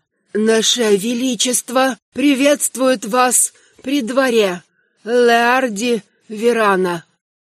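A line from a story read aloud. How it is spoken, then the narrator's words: Dry, hoarse voice. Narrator (Russian): Сухой и хриплый голос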